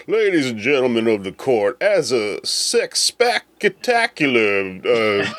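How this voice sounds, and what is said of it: Put-on Southern lawyer accent. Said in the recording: “gets the fun Southern lawyer accent”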